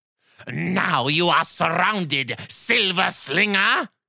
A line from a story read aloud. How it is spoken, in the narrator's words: King Thaen growled